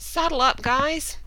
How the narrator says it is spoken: the head counselor suddenly shouted

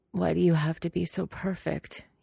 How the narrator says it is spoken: he mumbles, low enough that Lan Wangji is not sure he heard him correctly

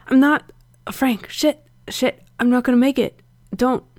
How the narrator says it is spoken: Gerard shook his head and stammered

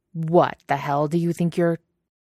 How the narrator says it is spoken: says, on a snarl

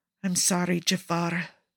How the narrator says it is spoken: Cesare murmurs

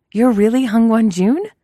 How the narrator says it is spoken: exclaims

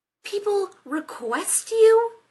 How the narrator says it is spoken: Rodney snapped

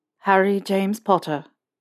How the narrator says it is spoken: he said, his tone flat

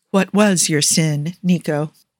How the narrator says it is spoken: he asks, making his words soft as a feather, his voice calm despite the turmoil in his soul

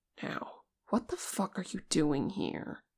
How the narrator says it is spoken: Vegas demanded, his voice low

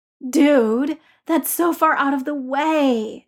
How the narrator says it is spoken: Ned groaned

